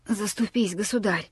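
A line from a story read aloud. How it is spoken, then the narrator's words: Hoarse old man's voice. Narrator (Russian): Старик сиплым голосом произнес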